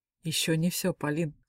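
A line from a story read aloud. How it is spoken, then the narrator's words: Muffled laugh. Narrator (Russian): глухо рассмеялся он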